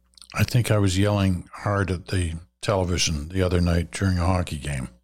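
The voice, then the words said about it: Hoarse voice. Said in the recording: “my uh, voice sounds a little hoarse”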